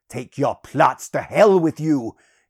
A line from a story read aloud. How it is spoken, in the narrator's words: he roared